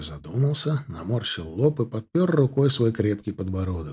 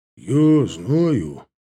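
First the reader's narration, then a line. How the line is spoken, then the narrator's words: Sigh. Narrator (Russian): вздохнул Вася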